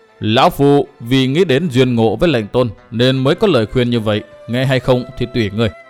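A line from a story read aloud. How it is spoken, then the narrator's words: Stern old man. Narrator (Vietnamese): Lão nhân nghiêm giọng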